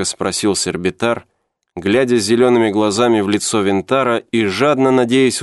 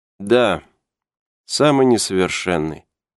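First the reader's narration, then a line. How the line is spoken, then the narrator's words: Sad repetition. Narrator (Russian): печально повторил Винтар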